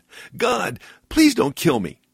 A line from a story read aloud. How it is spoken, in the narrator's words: he cried out again